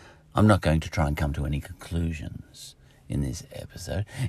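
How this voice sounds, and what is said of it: Usual voice. Nothing is said of it.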